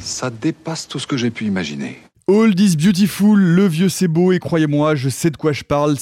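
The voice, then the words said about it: Put-on old-sounding accent. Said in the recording (French): “C'était quel accent ça j'ai l'accent vieux, mais beau”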